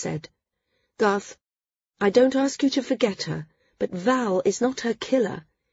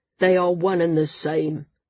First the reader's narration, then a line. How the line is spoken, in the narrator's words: Garth grumbled, but it was half-hearted